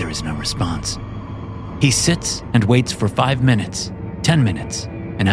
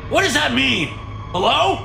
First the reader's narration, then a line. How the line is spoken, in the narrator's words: Marshall shouts at the TV